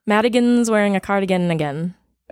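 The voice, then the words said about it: Sudden unidentified put-on accent. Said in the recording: “I don't know where that accent came from ... What was that accent?”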